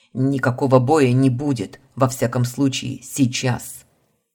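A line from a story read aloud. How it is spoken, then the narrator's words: Barking. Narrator (Russian): Рявкнул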